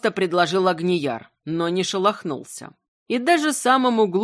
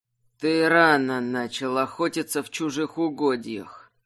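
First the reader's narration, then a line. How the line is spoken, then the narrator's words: Grumbling. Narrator (Russian): проворчал он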